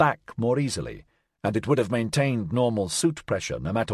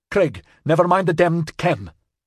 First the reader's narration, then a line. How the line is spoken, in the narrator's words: Svetlana snapped